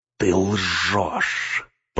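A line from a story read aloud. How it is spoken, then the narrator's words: Hissed. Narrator (Russian): прошипел Гнилоуст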